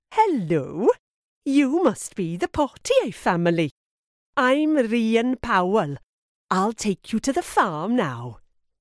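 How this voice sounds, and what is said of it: Soft voice, sing-song accent. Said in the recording (French): “Sa voix est douce et son accent très chantant.”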